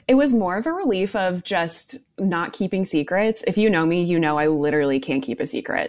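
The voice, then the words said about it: Slightly raspy voice. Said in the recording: “tell by my voice is a little bit raspy”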